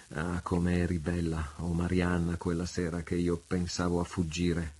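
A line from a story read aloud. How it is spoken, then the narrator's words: Murmured. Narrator (Italian): mormorò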